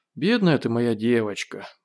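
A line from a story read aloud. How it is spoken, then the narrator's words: Mutter. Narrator (Russian): пробормотал Гош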